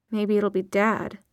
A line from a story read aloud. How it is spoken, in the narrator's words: muttered Izzy